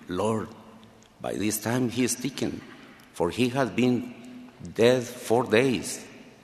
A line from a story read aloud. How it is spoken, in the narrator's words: Martha timidly whispered to him